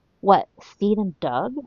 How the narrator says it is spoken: Olawande whispers back furiously

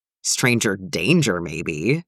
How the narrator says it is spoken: Jim mutters, but he's grinning

